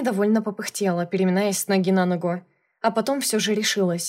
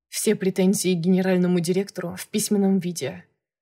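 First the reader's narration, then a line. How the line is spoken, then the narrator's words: Calm reply. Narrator (Russian): ответил спокойно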